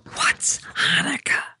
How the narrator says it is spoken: Kathleen whispers

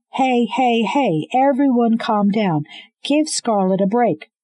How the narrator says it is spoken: Roland yelled, his confidence bolstered by the whiskey on his breath

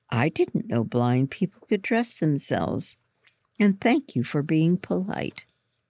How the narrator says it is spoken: Mary said

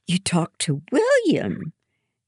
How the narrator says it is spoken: Hannah exclaims

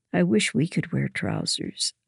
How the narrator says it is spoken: I sighed

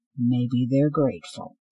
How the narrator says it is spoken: Cinder muttered

